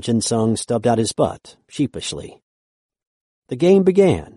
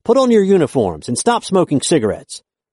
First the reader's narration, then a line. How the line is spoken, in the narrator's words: the coach snapped at the players to get ready, shouting